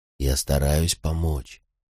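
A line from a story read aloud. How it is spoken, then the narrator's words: Whispering. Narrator (Russian): нашептывал я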